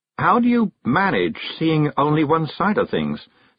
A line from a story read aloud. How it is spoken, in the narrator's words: said Miss Neville dreamily to the world in general